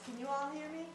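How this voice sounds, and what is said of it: Loud projecting teacher voice. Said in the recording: “I'll just use my teacher voice.”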